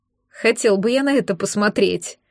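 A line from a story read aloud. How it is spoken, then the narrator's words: Laughing. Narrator (Russian): Смеясь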